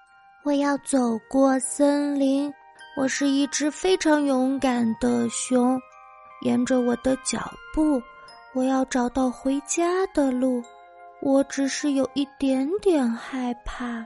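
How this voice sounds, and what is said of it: Soft, quiet singing. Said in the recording (Chinese): “小声的唱”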